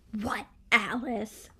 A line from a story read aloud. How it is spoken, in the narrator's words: I hissed